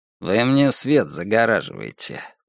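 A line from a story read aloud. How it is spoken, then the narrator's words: Grumbling. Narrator (Russian): проворчал Дон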